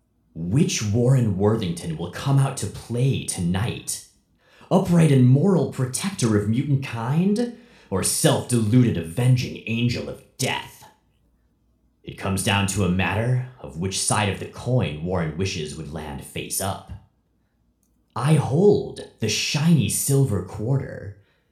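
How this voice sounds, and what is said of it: Villain character voice. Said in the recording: “read these in Stryfe's voice ... do my Stryfe voice”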